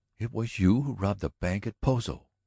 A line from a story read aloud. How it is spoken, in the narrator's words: cried softly, the look in her eyes one of dread now